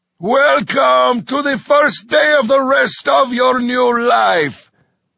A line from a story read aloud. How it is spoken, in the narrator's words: The sergeant chortled